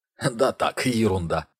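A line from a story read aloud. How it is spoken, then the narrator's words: Answer suppressing laughter. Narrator (Russian): ответил Ник, хотя был готов расхохотаться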